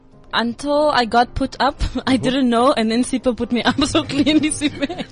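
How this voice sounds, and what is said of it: Botswana-accented English. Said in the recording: “I think it's the Botswana accent.”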